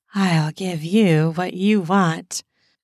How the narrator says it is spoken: she says in an alluring voice

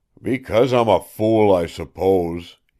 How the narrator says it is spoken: he growled

